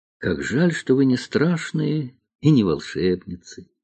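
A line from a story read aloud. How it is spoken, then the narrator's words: Sighing. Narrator (Russian): вздохнула Алиса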